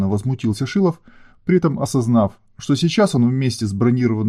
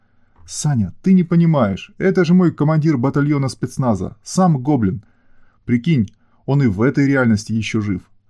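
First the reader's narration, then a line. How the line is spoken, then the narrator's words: Cheerful rapid chatter. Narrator (Russian): радостно протараторила девушка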